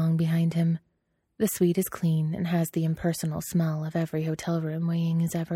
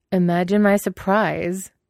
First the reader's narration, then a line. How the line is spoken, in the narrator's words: Wei Ying drawls